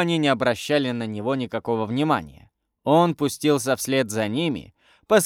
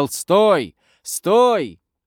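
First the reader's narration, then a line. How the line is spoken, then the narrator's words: Shouting. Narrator (Russian): Хэл кричал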